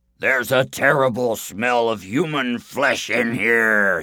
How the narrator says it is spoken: bellowed

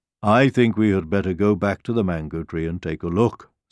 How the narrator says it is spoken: said the lion

